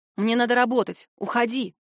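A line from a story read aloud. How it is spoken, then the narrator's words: Rude, curt. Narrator (Russian): Грубо бросаю я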